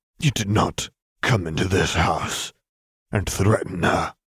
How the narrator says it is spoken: he spat

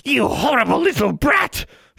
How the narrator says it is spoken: she screamed

